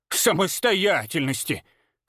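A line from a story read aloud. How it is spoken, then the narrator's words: Snorting old woman. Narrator (Russian): фыркнула бабка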